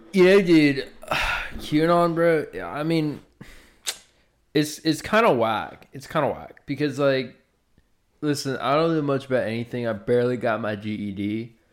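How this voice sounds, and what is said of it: Surfer stoner voice. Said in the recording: “I can play like, a stoner really well. ... Like a surfer. ... Like a surfer stoner, I can play that really well.”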